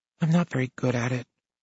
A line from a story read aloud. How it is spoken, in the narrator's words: Melanie says quietly